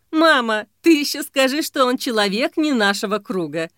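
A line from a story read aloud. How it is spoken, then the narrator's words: Laughing. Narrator (Russian): Засмеялась Мила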